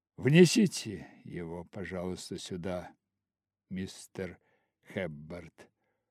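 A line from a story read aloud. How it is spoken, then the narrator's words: Tired young man's voice. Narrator (Russian): усталым голосом проговорил юноша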